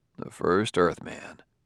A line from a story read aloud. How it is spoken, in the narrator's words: muttered Bailey